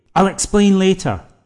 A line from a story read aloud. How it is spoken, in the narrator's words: Tom replied